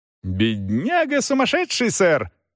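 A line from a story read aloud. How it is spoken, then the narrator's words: Exclaimed. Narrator (Russian): воскликнул мистер Дик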